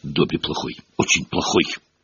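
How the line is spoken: Mumbling. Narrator (Russian): бормоча

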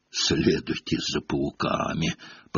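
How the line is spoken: Hoarse rasp. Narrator (Russian): прохрипел он

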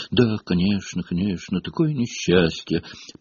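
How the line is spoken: Muttered. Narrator (Russian): пробормотал Локонс

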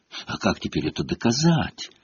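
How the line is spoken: Dejected remark. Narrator (Russian): уныло заметила Гермиона

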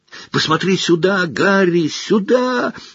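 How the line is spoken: Desperate yell. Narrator (Russian): отчаянно завопил Колин

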